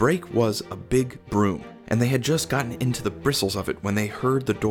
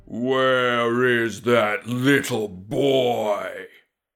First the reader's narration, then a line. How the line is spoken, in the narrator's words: he cried with a voice like the bellowing of a cannon